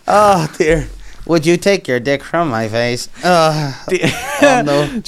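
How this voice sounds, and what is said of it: Robotic synthesized-sounding voice. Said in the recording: “give him the robot voice? ... when people can't move, they speak like that”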